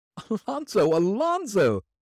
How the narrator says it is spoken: cried from the head of the stairs

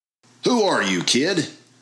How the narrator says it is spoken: chuckled the man

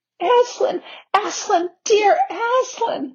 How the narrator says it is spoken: sobbed Lucy

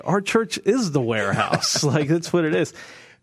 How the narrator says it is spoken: <laughs> and I would laugh and I would say

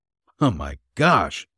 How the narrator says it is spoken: he exclaimed

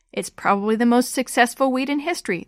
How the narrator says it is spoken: the old veteran said with a laugh

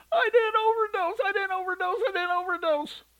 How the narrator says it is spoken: She kept screaming over and over

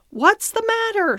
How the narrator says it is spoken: shouted my master

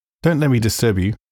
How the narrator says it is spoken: he said with a certain faltering articulation

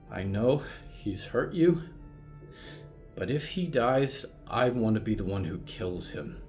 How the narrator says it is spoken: said calmly

